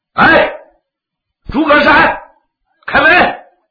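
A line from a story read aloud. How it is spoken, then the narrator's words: Shouting. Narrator (Chinese): 外头有人喊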